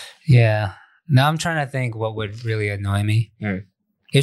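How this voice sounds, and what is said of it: Usual voice. Nothing is said of it.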